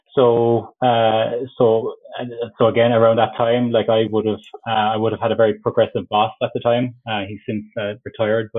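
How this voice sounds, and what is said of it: Irish Cork accent. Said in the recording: “I'm from Cork, if you couldn't tell from the accent”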